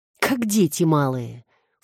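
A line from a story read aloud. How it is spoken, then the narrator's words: Quiet snort. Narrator (Russian): фыркнул он тихо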